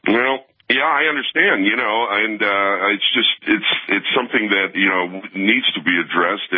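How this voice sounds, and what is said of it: Rich radio-style voice. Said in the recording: “I love your radio voice. You got a great voice for radio.”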